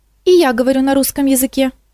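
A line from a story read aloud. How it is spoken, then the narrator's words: Moth's squeak. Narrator (Russian): пискнул мотылек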